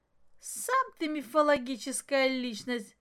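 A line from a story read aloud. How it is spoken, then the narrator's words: Laughing. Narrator (Russian): засмеялась Маша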